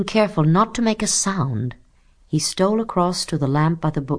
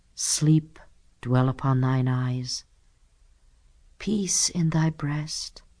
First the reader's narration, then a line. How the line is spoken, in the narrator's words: he whispered, repeating a speech he had heard in the movies